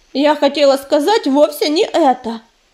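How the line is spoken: Angry. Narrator (Russian): сердито сверкнула голубыми глазами пепелица

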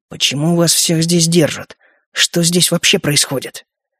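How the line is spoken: Hissed with hatred. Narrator (Russian): с ненавистью в голосе прошипел

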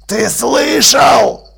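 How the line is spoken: Growled. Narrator (Russian): прорычал сержант

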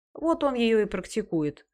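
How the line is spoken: Gloomy declaration. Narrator (Russian): мрачно заявил Чудакулли

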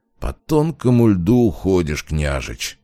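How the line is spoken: Muttered through teeth. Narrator (Russian): процедил

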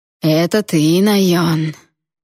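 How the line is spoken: Tender drawl. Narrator (Russian): ласково протянул Эйден

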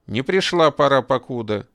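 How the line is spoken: Angry reply. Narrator (Russian): сердито ответил тот

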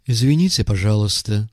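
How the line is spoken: Velvety female voice. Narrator (Russian): сказала брюнетка бархатным голоском

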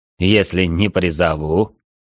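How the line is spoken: Mocking. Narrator (Russian): насмешливо переспросил Арчибальд

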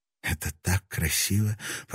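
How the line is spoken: Delighted murmur. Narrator (Russian): пробормотала она, наслаждаясь прикосновением к фарфору

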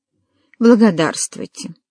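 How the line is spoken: Pompous smug tone. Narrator (Russian): Дон произнес напыщенным и самодовольным тоном

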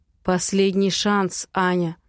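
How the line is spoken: Hoarse rasp. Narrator (Russian): хрипит он

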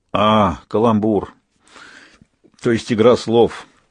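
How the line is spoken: Weary. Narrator (Russian): устало произнес смерть

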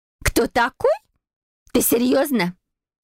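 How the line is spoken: Shrill squeal. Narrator (Russian): взвизгнула Дейзи

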